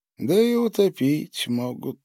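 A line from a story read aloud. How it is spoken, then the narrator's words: Grim smirk. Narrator (Russian): мрачно усмехнулся Павел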